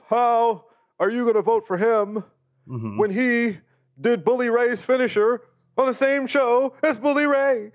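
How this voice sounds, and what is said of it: Shouty political speech voice. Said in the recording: “This is my political voice. ... It felt like an off Obama. ... someone shouting to you”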